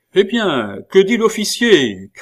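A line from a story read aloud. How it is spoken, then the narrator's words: Shouted by farm woman. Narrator (French): cria la fermière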